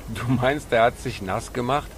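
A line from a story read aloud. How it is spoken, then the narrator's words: Laughing. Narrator (German): Pablo lachte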